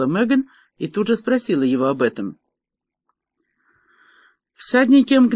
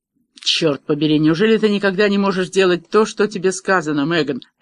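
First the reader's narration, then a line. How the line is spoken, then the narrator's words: Barked. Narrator (Russian): рявкнул Девлин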